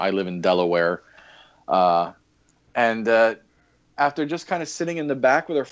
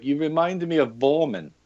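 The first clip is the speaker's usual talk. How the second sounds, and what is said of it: Poor imitated German accent. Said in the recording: “to your German listeners, forgive my uh, forgive my horrible accent”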